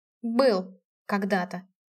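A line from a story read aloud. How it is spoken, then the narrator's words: Sullen mutter. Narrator (Russian): угрюмо буркнула я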